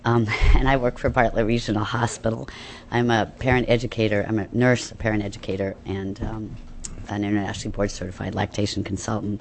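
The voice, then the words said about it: Hoarse voice from laryngitis. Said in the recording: “It's a good day to get laryngitis.”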